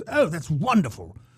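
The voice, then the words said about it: Put-on English accent. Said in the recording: “I'm giving them an English accent because they're on the Board of Regents”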